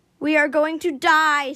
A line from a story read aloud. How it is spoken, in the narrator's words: screamed Peacemaker